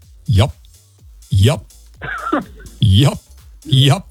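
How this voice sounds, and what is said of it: Imitates another person's voice. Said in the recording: “Here's my impression of Rick Dees ... My one word impression of Rick Dees ... That is dead on ... perfect.”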